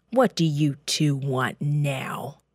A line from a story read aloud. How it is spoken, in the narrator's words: Pharaoh growled